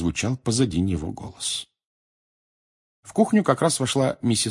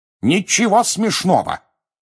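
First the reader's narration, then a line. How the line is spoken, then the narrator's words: Sharp scolding shout. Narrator (Russian): прикрикнул на них мистер Уизли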